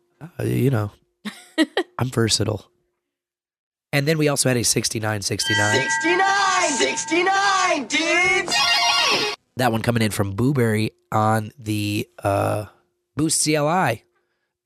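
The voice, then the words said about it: Hoarse voice from laryngitis. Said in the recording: “my laryngitis is inflamed”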